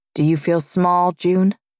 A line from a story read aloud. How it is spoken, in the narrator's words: He asks, his voice mild